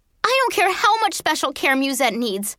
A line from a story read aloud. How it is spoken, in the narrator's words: I yelled